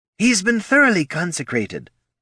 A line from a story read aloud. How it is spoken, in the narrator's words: blurted Genevieve